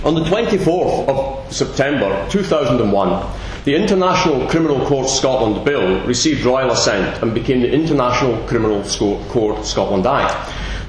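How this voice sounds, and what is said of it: Scottish accent. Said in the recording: “no one who's not Scottish and understands my accent”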